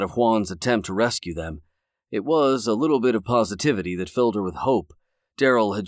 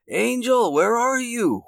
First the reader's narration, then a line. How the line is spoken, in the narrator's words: Juan yelled